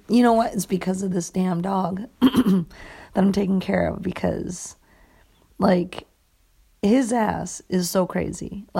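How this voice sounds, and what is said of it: Raspy voice. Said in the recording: “I'm suddenly getting this raspy.”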